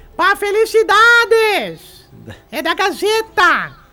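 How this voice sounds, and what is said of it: Shouting loudly. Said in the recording (Portuguese): “Por que tá gritando?”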